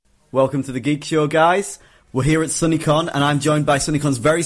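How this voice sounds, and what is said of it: Northern English accent. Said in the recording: “that delicious accent ... the English accent ... they're not used to the northern accent”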